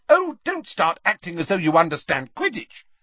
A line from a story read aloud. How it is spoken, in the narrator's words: snapped Ginny